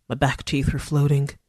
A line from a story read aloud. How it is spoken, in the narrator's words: Goldie muttered